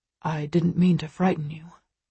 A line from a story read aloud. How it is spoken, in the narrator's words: he whispers